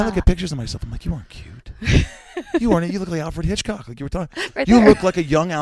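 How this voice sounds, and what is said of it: Usual voice. Nothing is said of it.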